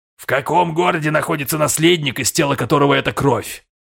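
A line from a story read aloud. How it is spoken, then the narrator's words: Loud question. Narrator (Russian): громко спросил страж рода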